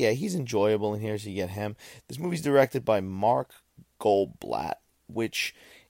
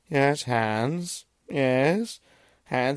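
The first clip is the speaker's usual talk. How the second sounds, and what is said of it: Imitates another person's voice. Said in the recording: “my Vincent Price impression.”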